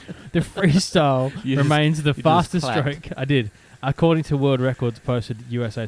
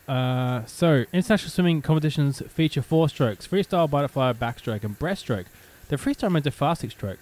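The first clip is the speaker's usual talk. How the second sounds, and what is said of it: Talking very fast. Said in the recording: “I'm talking too fast because I'm excited”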